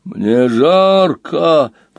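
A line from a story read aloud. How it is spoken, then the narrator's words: Moaned. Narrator (Russian): простонал Снугенхат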